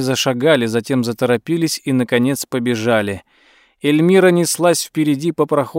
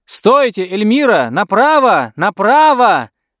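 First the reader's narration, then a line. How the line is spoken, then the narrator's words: Shout. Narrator (Russian): закричала миссис Гудуотер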